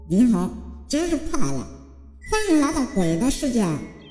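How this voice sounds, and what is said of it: Cold, icy female voice. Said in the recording (Chinese): “她仍然用一种冰冷的声音说”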